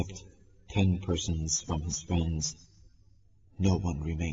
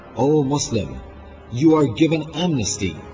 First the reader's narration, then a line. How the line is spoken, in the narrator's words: Aliyas, Muhammad ibn Ash'af cried